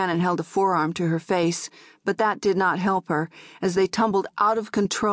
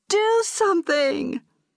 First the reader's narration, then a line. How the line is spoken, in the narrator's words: Orianan cried